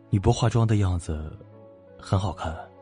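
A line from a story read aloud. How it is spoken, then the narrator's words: Admiring male exclamation. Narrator (Chinese): 连直男顾大佬也不由感叹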